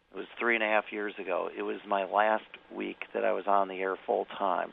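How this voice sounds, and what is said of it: Weak, hoarse, partly lost voice. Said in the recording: “my voice went again. But it's getting better, actually. It was worse late last week.”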